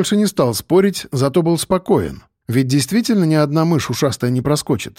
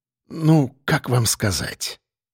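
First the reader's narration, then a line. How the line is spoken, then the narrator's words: Lowered, quiet voice. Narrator (Russian): Артищев понизил голос и проговорил тихо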